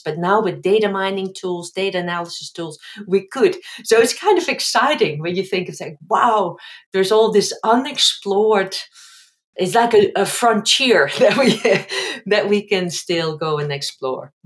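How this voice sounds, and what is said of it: Dutch-accented English. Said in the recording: “your Dutch accent”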